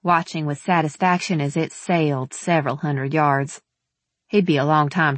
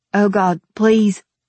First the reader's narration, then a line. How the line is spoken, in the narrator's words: he stammered, his breath coming in harsh pants